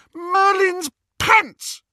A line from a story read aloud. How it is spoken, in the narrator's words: She shrieked